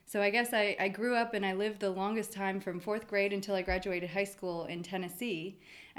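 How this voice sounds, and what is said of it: Neutral American news-presenter accent. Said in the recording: “very like... American accent that you couldn't place. It's like you could be a news presenter... it didn't feel authentic to have a Tennessee drawl”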